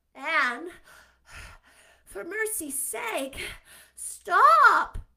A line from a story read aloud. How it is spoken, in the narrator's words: panted poor Diana